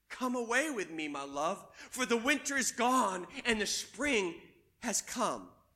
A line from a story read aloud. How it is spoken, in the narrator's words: But then he whispered